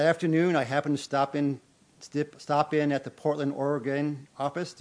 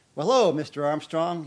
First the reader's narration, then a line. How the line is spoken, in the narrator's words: said